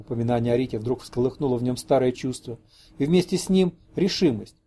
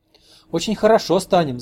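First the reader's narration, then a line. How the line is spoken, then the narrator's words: Laughing. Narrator (Russian): засмеялась она, как Рита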